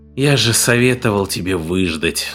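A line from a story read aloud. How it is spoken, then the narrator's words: Sighed. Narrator (Russian): вздохнул Карвер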